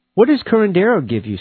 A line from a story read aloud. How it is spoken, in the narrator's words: Steve asked impatiently